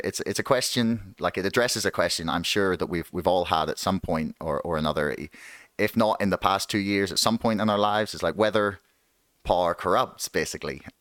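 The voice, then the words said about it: Northern Irish accent. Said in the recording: “you're going to hear a lot of my accent butchering the word power, because if you ever come to Northern Ireland, you will discover it only has one syllable”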